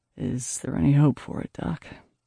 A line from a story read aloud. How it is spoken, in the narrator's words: he said softly